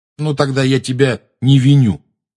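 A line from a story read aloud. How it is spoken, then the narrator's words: Angry. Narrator (Russian): сердито заявил Рон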